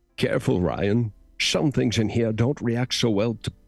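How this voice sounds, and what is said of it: Sean Connery impression. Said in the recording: “my only impression that I can do sort of is Sean Connery in The Hunt for Red October”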